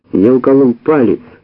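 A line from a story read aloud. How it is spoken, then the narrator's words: Said loudly. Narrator (Russian): сказал я громко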